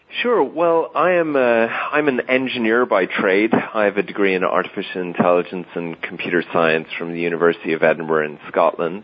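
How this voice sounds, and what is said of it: Irish accent. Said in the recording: “he does have a little bit of an unfortunate accent, so I hope you can put up with the Irishness here”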